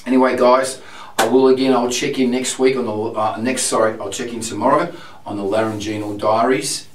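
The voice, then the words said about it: Husky, low strained voice. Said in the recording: “my true voice feels very way down and husky ... it sounds quite husky ... My voice, my true voice doesn't sound great here at all now. Um, it feels quite husky after, after using my, my true voice”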